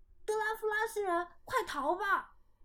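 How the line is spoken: Shouting. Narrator (Chinese): 有人喊

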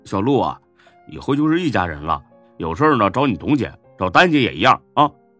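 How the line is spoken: Smiling. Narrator (Chinese): 李欢笑着说

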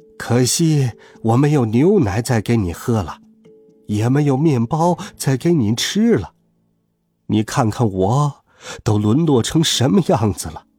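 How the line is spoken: Old man's lament. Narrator (Chinese): 老人哀叹道

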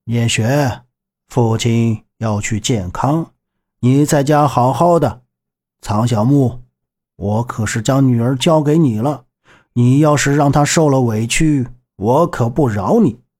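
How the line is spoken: With a laugh. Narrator (Chinese): 韩忠诚朝他们笑了一声，道

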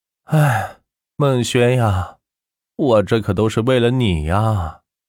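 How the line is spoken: Helpless sigh. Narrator (Chinese): 万钱无奈的叹息道

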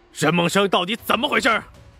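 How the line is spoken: Angry roar. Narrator (Chinese): 黄振义怒吼道

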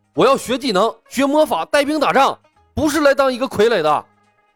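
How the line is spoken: Desperate loud shout. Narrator (Chinese): 程东东也是豁出去了，大声喊道

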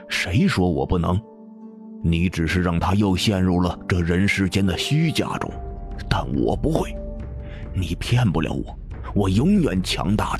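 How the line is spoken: Through gritted teeth. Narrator (Chinese): 林鹏咬咬牙

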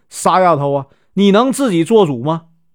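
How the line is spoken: Laughing. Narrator (Chinese): 阿喜笑着说

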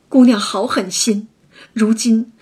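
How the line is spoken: Crying. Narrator (Chinese): 思琪哭道

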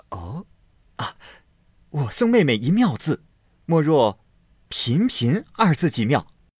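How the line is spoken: Laughing. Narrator (Chinese): 宝玉笑道

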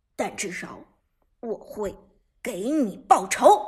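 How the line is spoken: Low voice. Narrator (Chinese): 苏哲低声说道

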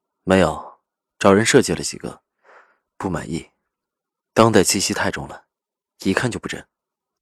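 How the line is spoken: Calm, indifferent. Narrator (Chinese): 赵以静 淡淡说着

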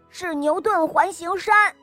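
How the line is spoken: Loud answer. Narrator (Chinese): 他大声地回答道

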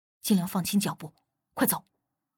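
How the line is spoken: Low, deep command. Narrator (Chinese): 无忌 突然略微压低了声音，沉声吩咐

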